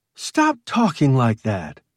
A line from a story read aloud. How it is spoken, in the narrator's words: Ruth snapped